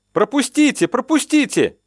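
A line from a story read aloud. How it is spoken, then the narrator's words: Yelling. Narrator (Russian): орал кто-то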